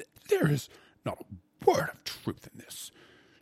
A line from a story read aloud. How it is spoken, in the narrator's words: she gasped at length, having managed to get the vocal cords disentangled